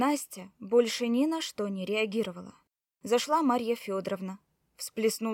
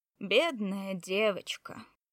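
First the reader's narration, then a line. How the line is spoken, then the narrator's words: Dry. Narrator (Russian): сухо произнесла владелица кафе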